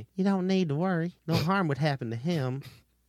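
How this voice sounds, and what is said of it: Put-on Southern American accent. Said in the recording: “And it has a southern accent? ... I don't trust you, southern alien.”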